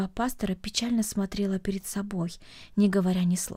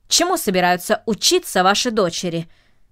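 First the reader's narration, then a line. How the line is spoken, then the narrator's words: Sharp question, man. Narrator (Russian): резко спросил джентльмен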